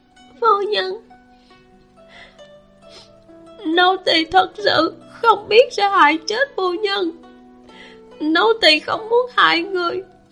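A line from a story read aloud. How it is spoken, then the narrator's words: Crying with trembling lips. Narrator (Vietnamese): Viên Tử tái mặt, môi không khỏi run rẩy, khóc nói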